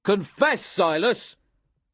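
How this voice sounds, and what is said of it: Stern commanding voice. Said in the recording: “cried William in a stern voice.”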